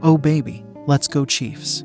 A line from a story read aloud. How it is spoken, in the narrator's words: says Dave